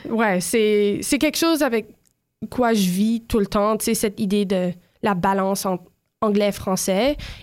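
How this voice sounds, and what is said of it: Slightly unusual French accent. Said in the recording (French): “j'ai un accent un peu étrange”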